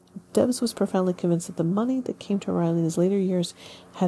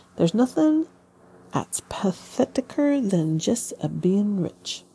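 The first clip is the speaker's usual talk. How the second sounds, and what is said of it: Put-on dialect reading. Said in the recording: “this is a accent.”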